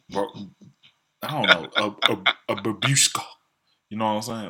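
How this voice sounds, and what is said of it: Southern American accent. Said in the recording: “I got a southern accent... Russian Southern American accent.”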